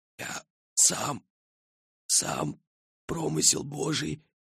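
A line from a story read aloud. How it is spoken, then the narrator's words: Wheezing. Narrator (Russian): просипел монарх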